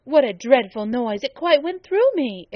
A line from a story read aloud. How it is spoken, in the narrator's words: exclaimed Abbott